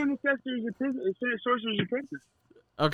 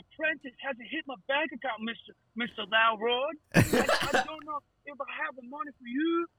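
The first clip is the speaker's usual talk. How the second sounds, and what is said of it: Weak imitation of another person's voice. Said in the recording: “What fucking part of that was Nicolas Cage, bro? ... I'm sorry I gave you such a weak impersonation.”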